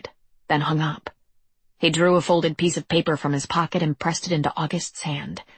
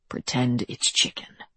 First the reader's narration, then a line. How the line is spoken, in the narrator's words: he said softly